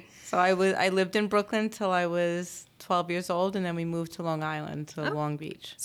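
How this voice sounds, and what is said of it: New York accent. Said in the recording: “I love your accent. ... I'm used to the New York accent.”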